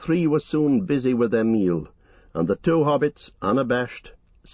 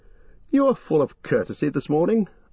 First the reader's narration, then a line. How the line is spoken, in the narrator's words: laughed Legolas